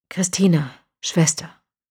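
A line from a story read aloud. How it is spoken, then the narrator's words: Quiet. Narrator (German): sagte er leise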